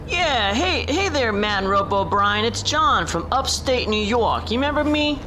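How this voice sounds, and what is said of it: Strong upstate New York accent. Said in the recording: “He's from upstate New York area. He's got another incredible accent ... he's walking here ... he's talking here”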